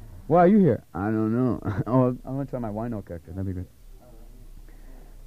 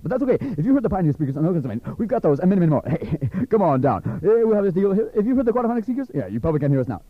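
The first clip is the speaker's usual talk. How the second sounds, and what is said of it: Very fast ad-style talking. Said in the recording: “we're talking so fast we can't even understand this ... I'm talking so fast”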